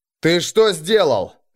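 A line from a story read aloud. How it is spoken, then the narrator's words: Barked. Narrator (Russian): рявкнул Арнгрим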